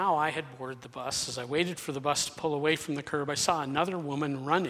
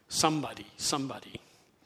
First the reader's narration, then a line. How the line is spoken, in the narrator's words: quieted him by whispering to him